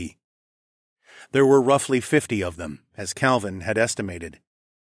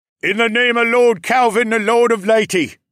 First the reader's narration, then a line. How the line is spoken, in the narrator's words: one of the city guardsmen bellowed